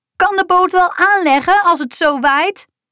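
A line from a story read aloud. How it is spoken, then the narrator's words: Shouting. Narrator (Dutch): schreeuwde ze tegen Barend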